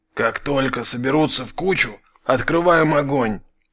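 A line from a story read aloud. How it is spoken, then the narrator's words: Quiet voice over radio. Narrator (Russian): Тихо прозвучал в ближнем эфире голос медведя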